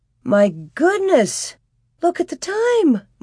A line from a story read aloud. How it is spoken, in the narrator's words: Ma exclaimed